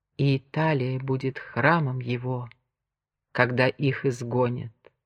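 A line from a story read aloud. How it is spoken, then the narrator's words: Trembling whisper. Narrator (Russian): Артур с дрожью в голосе прошептал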